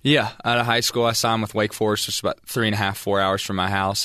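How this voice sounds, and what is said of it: West Virginia accent. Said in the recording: “We're hearing your accent a little bit. You're from Ripley, West Virginia.”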